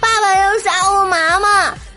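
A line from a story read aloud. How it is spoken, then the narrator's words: Crying. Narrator (Chinese): 我哭着说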